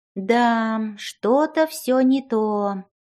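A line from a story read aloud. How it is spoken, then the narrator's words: Sighing fairy. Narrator (Russian): вздохнула фея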